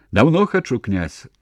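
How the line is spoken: Broad smile. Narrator (Belarusian): шырока усміхнуўся Кунас

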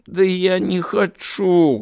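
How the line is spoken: Whining. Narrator (Russian): хныкала Наталья

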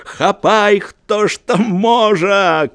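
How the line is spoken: Shouting. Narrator (Belarusian): крычаў Маеўскі

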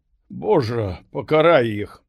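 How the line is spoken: Dry-eyed, plain. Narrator (Belarusian): Не, зусім не плакала, толькі і сказала

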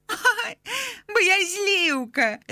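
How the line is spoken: Fairy laughing again. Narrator (Belarusian): Знову засмяялася фея Неаніла

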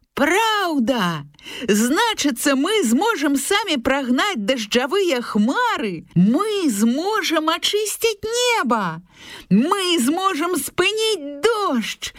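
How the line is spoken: Hares and hedgehog shouting. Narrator (Belarusian): закрычалі зайцы вожык

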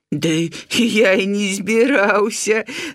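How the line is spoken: Laughing. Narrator (Belarusian): засмяяўся ёрш

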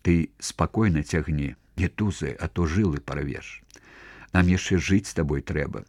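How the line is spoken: Whispering. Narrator (Belarusian): шаптаў яму

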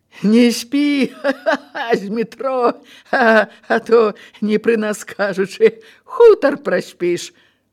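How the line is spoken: Guffawing. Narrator (Belarusian): зарагатаў кунік

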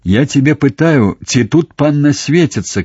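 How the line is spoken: Thunderous shout. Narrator (Belarusian): крыкнуў ён грамавым голасам

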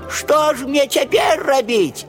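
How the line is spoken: Shouting again. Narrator (Russian): знов закричала она

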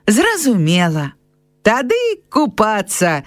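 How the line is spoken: Cheerful. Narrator (Belarusian): весела закончыў Міхал

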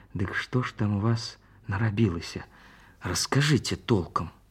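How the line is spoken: Hushed request. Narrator (Belarusian): цешча прыцішаным голасам папрасіла

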